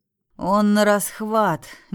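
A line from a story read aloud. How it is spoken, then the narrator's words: Displeased grumble. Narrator (Russian): недовольно буркнул капитан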